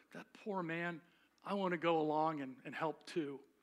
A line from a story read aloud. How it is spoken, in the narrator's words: And she murmured